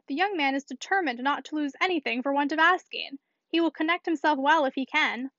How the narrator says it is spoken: she cried

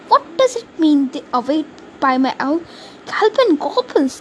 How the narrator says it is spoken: he stammered

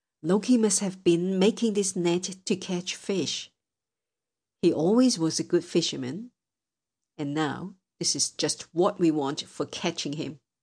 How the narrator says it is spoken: cried he

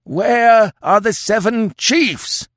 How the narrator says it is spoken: howled the old chief

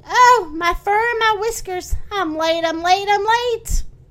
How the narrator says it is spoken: Still fretting, the rabbit exclaiming

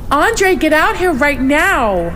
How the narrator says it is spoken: She shrieked, pounding against the door

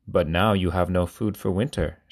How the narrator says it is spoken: said

